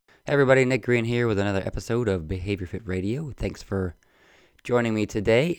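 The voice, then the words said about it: Hoarse, lower-pitched voice. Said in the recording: “I have a little bit of a frog in my throat, a little hoarse... Just regular cold... I speak in a lower octave”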